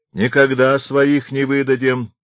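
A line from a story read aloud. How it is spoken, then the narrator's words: Drunken shout from above. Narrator (Russian): крикнул с хоров пьяный голос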